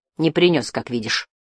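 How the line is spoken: Snapped back. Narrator (Russian): огрызнулась Жасмин

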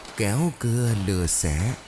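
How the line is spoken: Soft child's voice. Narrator (Vietnamese): có tiếng của trẻ con khẽ vang lên

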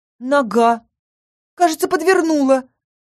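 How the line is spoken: Moaning. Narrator (Russian): простонала мисса

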